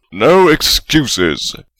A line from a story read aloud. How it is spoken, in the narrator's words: Godric bellowed